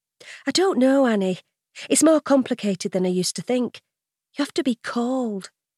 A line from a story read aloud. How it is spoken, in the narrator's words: she explains gently